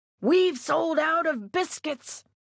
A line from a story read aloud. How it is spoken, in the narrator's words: shouted